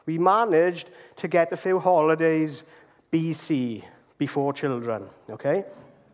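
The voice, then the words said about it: Welsh accent. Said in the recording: “in a, a Welsh accent. I'm sure it sounds a lot more Italian, coming from an Italian.”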